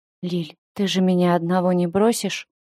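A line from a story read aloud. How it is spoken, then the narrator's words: Quiet. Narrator (Russian): Симыч тихо произнес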